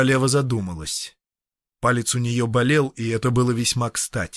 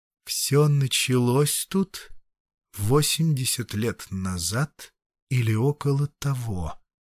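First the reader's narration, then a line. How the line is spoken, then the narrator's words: Drawn out. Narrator (Russian): протянула она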